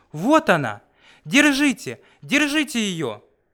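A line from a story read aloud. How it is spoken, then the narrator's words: Shouting. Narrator (Russian): закричал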